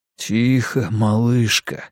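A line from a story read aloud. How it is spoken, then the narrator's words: Mutter. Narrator (Russian): пробормотал он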